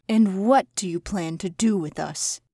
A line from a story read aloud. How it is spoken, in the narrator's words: The Hare asked, having cried too much